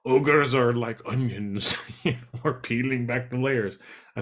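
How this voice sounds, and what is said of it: Bad impression of cartoon ogre voice. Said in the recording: “my bad Shrek impersonation”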